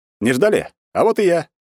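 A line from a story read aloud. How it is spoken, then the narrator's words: Cheerful bursting entrance. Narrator (Russian): весело ворвался в кабинет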